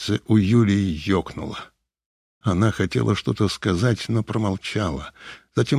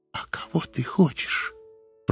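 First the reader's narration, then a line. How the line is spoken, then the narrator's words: Whispered. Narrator (Russian): прошептала она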